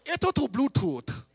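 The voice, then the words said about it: Imitated strong Cambodian accent. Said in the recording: “she has a serious Cambodian accent.”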